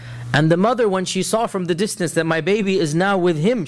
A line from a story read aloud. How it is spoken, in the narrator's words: she cried out in fear